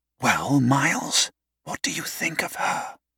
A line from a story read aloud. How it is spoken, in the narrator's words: Justin whispered